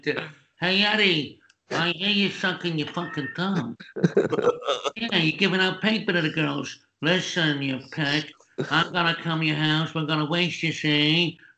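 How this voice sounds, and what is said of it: New York gangster voice. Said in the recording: “this isn't going to work in New York, it was, with my accent. So I had to do this kind of gangster's voice”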